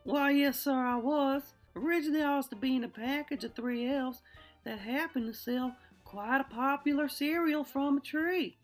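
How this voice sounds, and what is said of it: Southern accent. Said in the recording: “You have a southern accent.”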